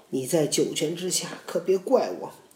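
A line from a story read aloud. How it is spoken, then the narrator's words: Crying. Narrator (Chinese): 皇帝哭着对董妃说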